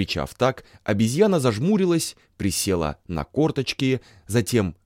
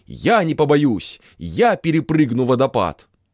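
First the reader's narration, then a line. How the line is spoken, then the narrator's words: Shout. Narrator (Russian): каменная обезьяна и крикнула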